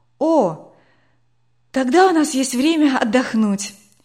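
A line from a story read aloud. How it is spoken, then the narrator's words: Relieved sigh. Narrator (Russian): облегченно вздохнула Катя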